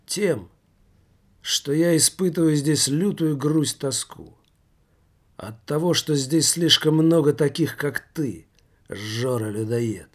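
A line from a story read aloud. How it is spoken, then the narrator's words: Calm reply. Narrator (Russian): спокойно ответил революционер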